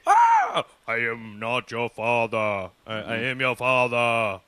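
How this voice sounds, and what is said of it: Imitates a movie villain's voice. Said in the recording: “that was a very terrible impression”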